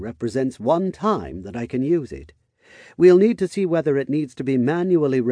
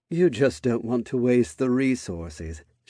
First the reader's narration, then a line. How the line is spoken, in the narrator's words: she said in a knowing tone